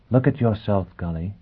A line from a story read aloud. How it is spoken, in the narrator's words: she said quietly